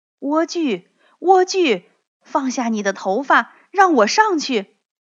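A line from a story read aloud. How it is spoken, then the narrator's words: Calling out. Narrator (Chinese): 王子来到塔前，叫道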